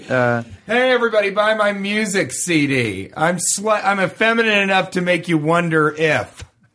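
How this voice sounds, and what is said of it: Imitates another person's voice, tipsy. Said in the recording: “you do a great TJ Miller impersonation ... That's my TJ after two or three drinks impression.”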